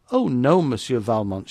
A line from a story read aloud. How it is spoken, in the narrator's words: she replied with a bright laugh